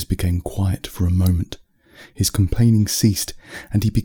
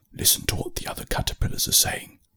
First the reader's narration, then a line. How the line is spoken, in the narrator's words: Bertie whispered